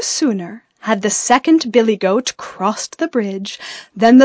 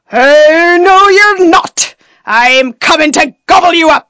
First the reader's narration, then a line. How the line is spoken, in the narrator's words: roared the troll